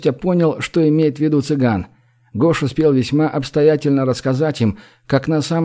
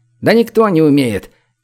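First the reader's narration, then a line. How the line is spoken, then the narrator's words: Shout from above. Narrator (Russian): крикнул сверху цыган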